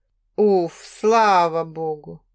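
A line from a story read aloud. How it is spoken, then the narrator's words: Relieved exhale. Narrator (Russian): Выдохнул Олег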